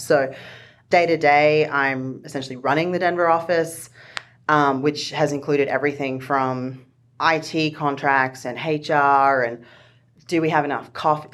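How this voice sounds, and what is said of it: Australian accent. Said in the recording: “I like how your accent ... I'm from Australia ... the way that you say HR”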